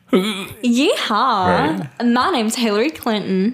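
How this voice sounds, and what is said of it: Exaggerated bad Texas accent. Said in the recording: “has the worst Texas accent I've ever heard... Exactly that.”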